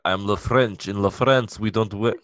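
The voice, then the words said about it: Bad French accent, sounding Russian. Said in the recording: “that was a bad French accent. That was a Russian accent for a French villain.”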